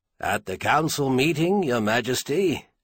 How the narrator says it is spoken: Stainer chuckled

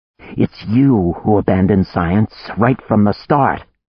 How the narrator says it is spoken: snarled

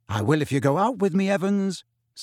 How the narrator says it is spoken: said James quickly

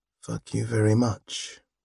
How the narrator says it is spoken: said under his breath

